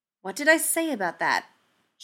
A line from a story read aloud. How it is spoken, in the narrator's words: she said, her tone one of warning